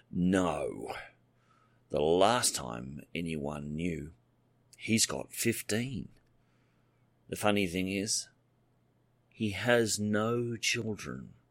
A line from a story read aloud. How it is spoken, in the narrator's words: Michael said bitterly